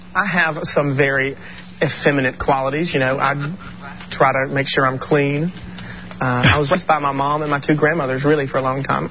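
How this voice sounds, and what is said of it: Southern American accent. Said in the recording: “I've got a southern accent”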